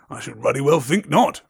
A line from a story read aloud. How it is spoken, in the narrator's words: growled Hagrid